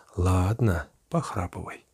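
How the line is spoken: Mocking smiling whisper. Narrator (Russian): Авдотья даже улыбнулась и насмешливо шепнула

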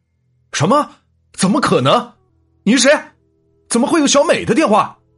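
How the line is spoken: Shocked loud demand. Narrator (Chinese): 小杰心里一震，但又觉得事有蹊跷，大声的质问道

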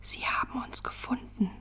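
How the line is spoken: Disbelieving whisper. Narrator (German): flüsterte ungläubig

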